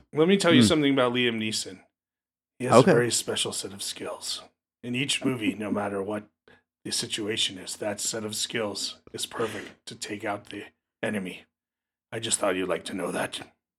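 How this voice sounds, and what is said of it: Liam Neeson impression. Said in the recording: “the Liam Neeson impression ... a pretty good impression ... it was not bad at all”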